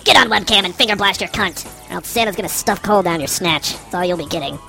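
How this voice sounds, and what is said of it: Evil elf character voice. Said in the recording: “did you like my evil elf voice?”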